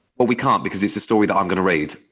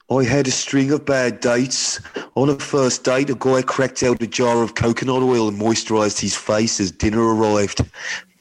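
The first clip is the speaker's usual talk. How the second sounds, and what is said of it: Put-on Birmingham accent. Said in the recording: “And then you've got to do the accent. I think she's from Birmingham. ... That's really good ... I'm so sorry to anyone from Birmingham.”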